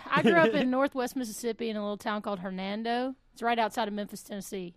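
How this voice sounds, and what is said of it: Southern American accent. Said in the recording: “Is this kind of a southern accent?”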